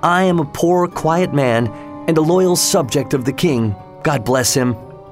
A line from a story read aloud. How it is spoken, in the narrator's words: cried Rip